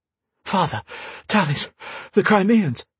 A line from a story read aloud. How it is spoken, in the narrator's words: he managed to get out between breaths